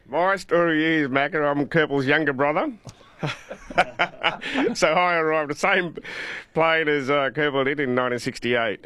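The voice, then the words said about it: Australian accent. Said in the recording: “you've got a great Australian accent ... we had three Australian boys our age, and that's where we got our accent from”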